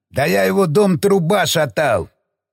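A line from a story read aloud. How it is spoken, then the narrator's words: Put-on fake accent. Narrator (Russian): Проговорил разведчик с наигранным акцентом, хотя на самом деле акцент ему был совсем не свойственен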